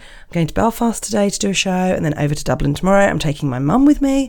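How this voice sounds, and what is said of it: Slightly croaky voice. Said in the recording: “my voice is a little croaky, that's why I've not long been up”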